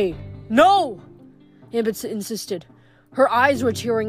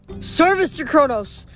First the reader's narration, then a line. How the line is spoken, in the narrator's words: the Titan roared